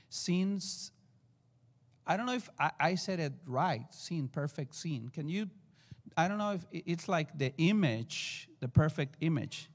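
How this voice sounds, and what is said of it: Mexican-accented English. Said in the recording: “excuse me for my accent, Mexican accent.”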